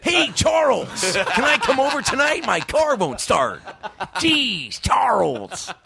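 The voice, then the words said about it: Imitates sitcom character Buddy's voice. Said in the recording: “did I just turn into fucking Buddy from Charles in Charge?”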